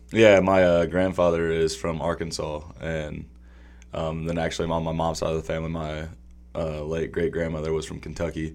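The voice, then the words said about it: Mild Southern US accent. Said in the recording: “I detect a Southern accent”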